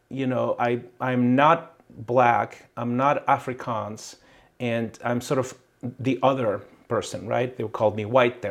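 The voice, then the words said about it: Hard-to-place mixed foreign accent. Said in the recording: “I have an accent, right? A very confused accent. They can even tell what the accent is from.”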